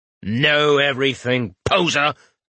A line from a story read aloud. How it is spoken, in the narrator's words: Albrecht snapped